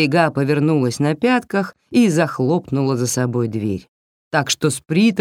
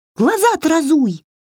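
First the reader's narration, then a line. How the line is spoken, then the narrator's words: Shrill squeal from below. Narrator (Russian): взвизгнули под ногами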